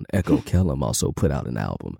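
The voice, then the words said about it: Deliberately deep voice. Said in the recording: “Let me put my deep voice on.”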